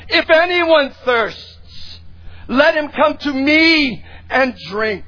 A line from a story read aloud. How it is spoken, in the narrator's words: He screams out